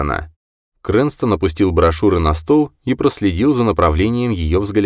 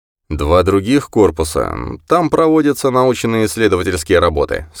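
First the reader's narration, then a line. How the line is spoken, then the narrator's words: Plain. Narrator (Russian): сказал врач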